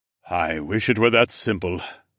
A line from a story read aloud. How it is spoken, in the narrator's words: the king sighed